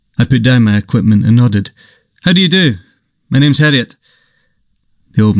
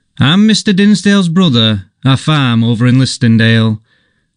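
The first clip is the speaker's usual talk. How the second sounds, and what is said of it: Nasal West Riding Yorkshire accent. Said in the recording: “he cried in the nasal twang of the West Riding”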